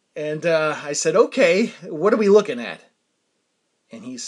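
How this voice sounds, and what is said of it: Usual voice. Nothing is said of it.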